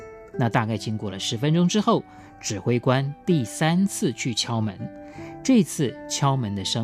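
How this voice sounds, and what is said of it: Usual voice. Nothing is said of it.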